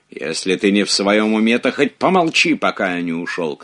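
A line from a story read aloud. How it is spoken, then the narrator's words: Shouted. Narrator (Russian): крикнул Робер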